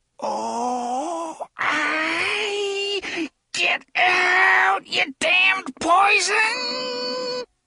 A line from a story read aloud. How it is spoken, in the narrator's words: he said in a voice that was almost a squeal